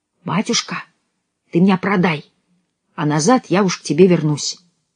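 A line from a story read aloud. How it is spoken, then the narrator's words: Whispering in ear. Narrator (Russian): мальчик с пальчик … стал нашептывать ему на ухо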